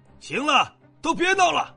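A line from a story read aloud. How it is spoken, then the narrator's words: Angry rebuke. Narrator (Chinese): 萧北望终于忍不住怒斥一句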